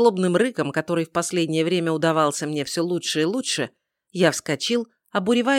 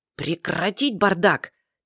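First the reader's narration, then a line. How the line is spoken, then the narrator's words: Quiet bark, imitating father. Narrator (Russian): тихо рявкнул я, стараясь как можно точнее скопировать нотки отца, с которыми он обычно проводил собрание старшей знати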